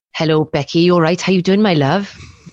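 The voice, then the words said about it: Strong put-on Welsh accent. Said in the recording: “you do a really good, strong Welsh accent. I'm always well impressed... he sounds very Welsh”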